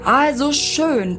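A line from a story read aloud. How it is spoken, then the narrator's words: Thundered. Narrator (German): donnerte Mr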